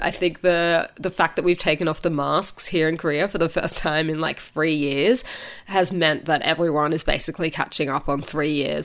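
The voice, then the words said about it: Rough, sick-sounding voice. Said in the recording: “I sound terrible. ... I have like a smoker's cough”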